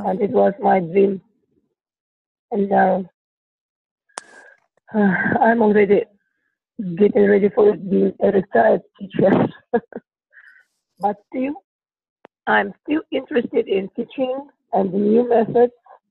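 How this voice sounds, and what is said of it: Sick-sounding voice. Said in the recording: “sorry for my voice. Today. I'm a little bit sick.”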